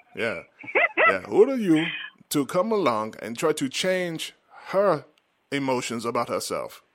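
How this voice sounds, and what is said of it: Weak put-on Wakandan accent. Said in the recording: “Let me see if I speak Wakandan... I've lost some of my accent.”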